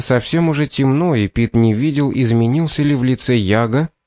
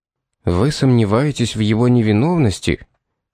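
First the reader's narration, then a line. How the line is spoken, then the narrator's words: Quiet question. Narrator (Russian): тихо спросил полицейский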